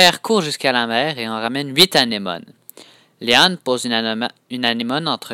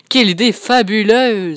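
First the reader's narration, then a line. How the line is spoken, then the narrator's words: Father exclaiming. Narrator (French): s'écrie son papa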